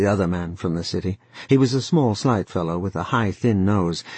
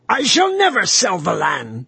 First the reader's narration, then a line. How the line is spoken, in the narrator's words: he shrieked at them